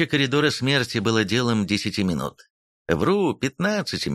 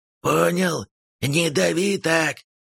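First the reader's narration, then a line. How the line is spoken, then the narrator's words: Old man's hoarse wheeze. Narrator (Russian): прохрипел старик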